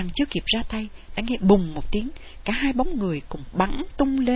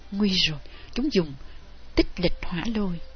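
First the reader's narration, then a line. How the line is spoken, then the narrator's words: Soft exclamation. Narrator (Vietnamese): Thanh Phong kêu khẽ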